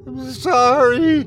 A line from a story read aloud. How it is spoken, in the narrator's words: I heard the man scream